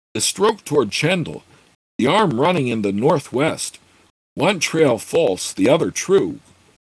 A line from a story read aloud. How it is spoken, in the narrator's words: Gord cried in enthusiasm